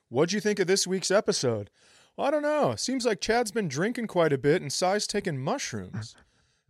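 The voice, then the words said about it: Impression of the show's listeners. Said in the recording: “my impersonation of the listeners this week”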